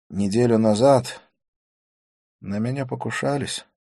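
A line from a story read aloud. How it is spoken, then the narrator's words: Gloomy. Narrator (Russian): сказал он мрачно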